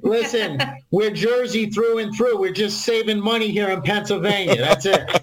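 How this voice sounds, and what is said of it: Strong New Jersey accent. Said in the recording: “they're Jersey people ... Are you kidding me with that accent?”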